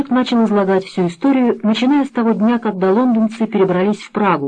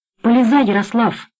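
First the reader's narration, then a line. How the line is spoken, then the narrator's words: Stern command. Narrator (Russian): строго распорядился Блажик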